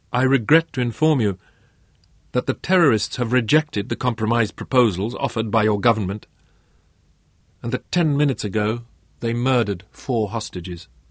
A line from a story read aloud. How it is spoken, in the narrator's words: his voice quavered a little